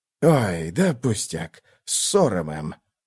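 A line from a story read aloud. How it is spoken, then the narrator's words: Mumbling. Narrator (Russian): пробормотал Реннер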